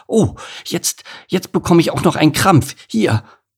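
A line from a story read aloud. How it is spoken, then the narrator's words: Pained gasp. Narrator (German): verzog sie schmerzhaft das Gesicht und keuchte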